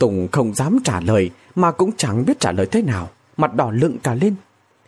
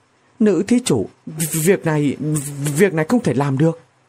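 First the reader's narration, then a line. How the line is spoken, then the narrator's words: Trembling. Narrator (Vietnamese): run run nói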